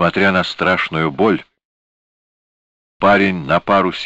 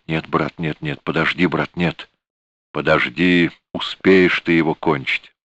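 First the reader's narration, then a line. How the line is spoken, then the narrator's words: Sudden flustered muttering. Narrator (Russian): Киллер вдруг опомнился и забормотал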